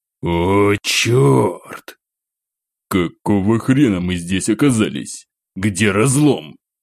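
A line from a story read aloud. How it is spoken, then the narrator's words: Deep bass voice. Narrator (Russian): Пробасил Дягилев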